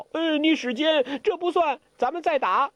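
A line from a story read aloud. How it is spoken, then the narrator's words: Shouting. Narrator (Chinese): 傻姑大叫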